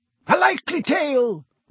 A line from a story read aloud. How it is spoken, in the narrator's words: roared Sir Cadogan